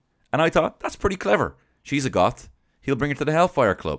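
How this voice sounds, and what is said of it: Usual voice. Nothing is said of it.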